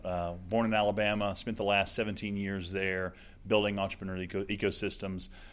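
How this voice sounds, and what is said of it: Southern US accent. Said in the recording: “I'm not from Oklahoma, as you can probably tell by the accent.”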